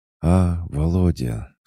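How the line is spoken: Sleepy, smiling. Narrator (Russian): сонно улыбнулась она

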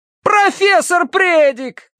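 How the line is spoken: Shouted. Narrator (Russian): крикнул Терренс

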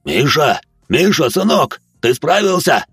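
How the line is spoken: Shouted. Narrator (Russian): крикнул Марк

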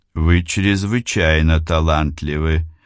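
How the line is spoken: Pompous tone masking embarrassment. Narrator (Russian): произнес он, пытаясь за высокопарным тоном скрыть замешательство

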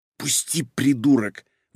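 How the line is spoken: Indignant whisper. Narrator (Russian): возмущенным шепотом ответила она

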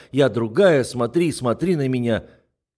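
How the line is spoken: Shouting. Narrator (Russian): Она кричала

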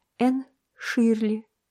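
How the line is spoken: Girl's trembling voice. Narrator (Russian): дрогнувшим голосом сказала девочка

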